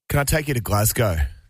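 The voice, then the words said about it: Put-on accent. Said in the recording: “Doing the accent. ... I love the accent.”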